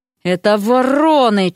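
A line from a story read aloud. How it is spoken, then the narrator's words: Near growl. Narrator (Russian): чуть не зарычала Вася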